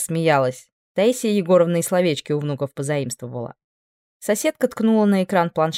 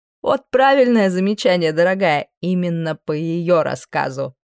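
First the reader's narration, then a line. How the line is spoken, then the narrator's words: Laughing. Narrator (Russian): Рассмеялась соседка со словами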